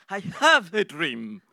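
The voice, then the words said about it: English spoken with strong accent. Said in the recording (French): “avec mon bel accent”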